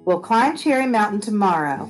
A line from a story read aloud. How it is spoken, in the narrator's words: Grandma Lilah said firmly